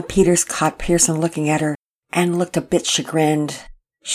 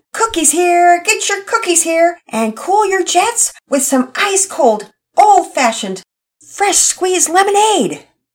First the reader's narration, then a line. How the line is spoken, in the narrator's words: yelling out his sales pitch